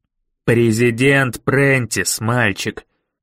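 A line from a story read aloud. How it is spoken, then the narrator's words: Growl. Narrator (Russian): прорычал мистер Коллинз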